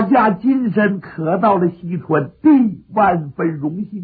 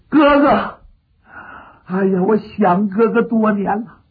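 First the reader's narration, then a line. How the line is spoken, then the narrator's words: Sobbing. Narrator (Chinese): 刘季玉一见刘备，哭倒在地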